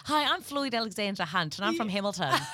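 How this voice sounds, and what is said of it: Put-on strong Hamilton New Zealand accent. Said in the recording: “you need to sound like you're from Hamilton ... then like you've got the accent ... aren't the accents from Hamilton quite strong?”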